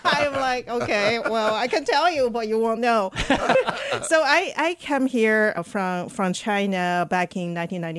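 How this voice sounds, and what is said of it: Non-native English accent. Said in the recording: “as you can tell from my name and my accent, I was born and raised, obviously not in St. Louis”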